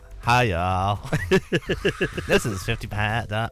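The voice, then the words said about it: Put-on American accent. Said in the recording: “Aren't you going to do your American accent?”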